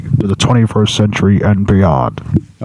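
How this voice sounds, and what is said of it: Radio show announcer voice. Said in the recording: “do it with a radio show announcer voice ... Okay, Buck Rogers.”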